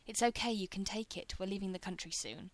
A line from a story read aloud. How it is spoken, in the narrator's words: Rodney says, in an impatient tone the kid is sure to recognize as adult